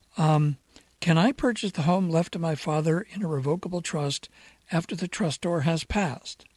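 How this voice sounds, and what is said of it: Hoarse voice. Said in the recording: “a little bit hoarse today”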